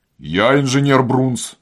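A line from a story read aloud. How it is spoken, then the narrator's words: Unexpectedly deep bass. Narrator (Russian): сказал заклинатель гусика неожиданным басом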